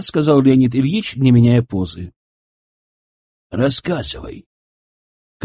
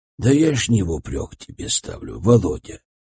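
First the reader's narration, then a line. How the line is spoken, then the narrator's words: Soft. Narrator (Russian): произнес он мягко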